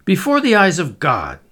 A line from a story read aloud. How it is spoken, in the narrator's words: exclaimed